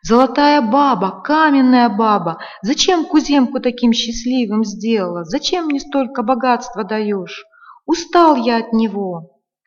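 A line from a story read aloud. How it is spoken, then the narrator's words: Bursting shout. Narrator (Russian): Не вытерпел, да как закричит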